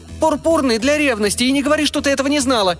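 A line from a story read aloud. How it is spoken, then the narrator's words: Yelled. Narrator (Russian): завопила она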